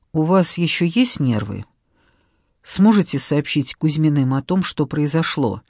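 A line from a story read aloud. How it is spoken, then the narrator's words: Plain. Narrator (Russian): спросила Гликерия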